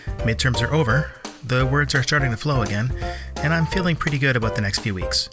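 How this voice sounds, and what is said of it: Slightly rough, hoarse voice. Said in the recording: “My voice is a little rough today, which probably means I've been using it too much lately”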